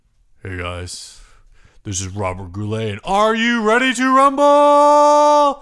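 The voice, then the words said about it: Imitates another person's voice. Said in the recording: “That's a dead-on impression. I've never heard you do an impression so well.”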